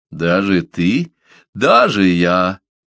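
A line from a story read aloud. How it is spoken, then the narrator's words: Laughing loudly. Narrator (Russian): расхохотался Миани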